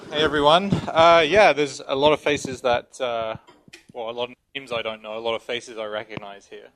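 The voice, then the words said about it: English accent. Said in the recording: “moved from England, if you can tell by my accent ... If you ever call me an Australian ... Or South African”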